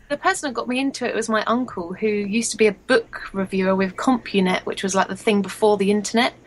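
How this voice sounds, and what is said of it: English accent. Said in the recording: “I love your accent ... stay with my own accent ... Stay English”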